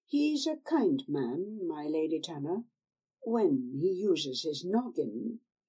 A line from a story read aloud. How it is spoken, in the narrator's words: the woman said softly